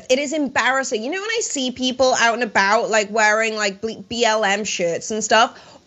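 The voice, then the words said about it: Southern US accent. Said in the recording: “can you tell from my accent that I'm, like, clearly from the South? ... Absolutely.”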